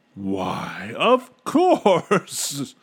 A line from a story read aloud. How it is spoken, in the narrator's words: he began laughing